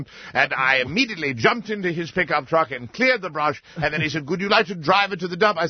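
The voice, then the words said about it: Noticeable accent. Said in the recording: “he was taken, of course, as many of them are, by my accent”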